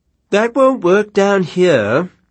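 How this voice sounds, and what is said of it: Schoolboy English accent. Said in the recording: “someone called out in a schoolboy English accent.”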